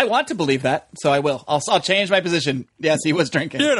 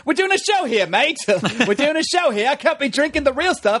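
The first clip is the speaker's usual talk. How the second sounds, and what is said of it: Bad put-on Australian accent. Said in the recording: “Australian accent badly”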